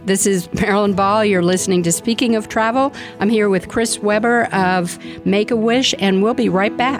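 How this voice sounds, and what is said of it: Choked-up, emotional voice. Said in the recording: “I'm just getting choked up.”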